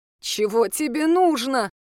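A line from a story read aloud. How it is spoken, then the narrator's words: Whimpering. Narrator (Russian): проскулила Софья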